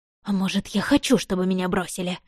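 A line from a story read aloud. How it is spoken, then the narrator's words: Snapping retort. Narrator (Russian): огрызнулась я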